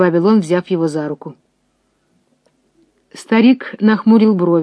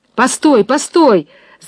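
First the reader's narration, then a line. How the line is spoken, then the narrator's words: Sudden shout. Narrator (Russian): закричал вдруг Максим Максимыч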